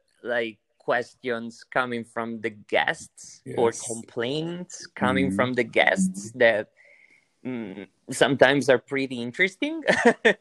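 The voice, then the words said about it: Italian-accented English. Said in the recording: “my way to speak English, and of course with my Italian accent”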